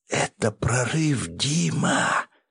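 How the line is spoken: Excited whisper. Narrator (Russian): шептала мне на ухо возбужденная до нельзя сестра

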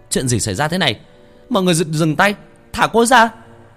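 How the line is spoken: Reflexive shout. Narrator (Vietnamese): Thằng Nguyên theo phản xạ hét lên

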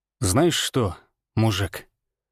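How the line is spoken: Quiet, distinct, menacing. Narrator (Russian): сказал я тихо, но отчетливо, чувствуя, как каждое слово пропитывается угрозой

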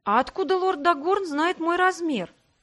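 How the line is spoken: Confused question. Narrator (Russian): растерянно уточнила я

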